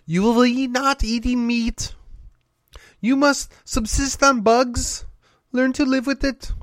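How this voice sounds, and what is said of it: Bad imitation of another voice. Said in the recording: “that's a really bad imitation.”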